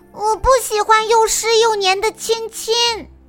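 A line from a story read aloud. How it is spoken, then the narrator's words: Young fawn, loud protest. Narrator (Chinese): 小花鹿忍不住大声的向长颈鹿阿姨抗议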